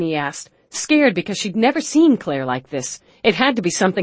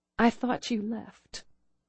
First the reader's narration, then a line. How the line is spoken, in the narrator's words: Claire said softly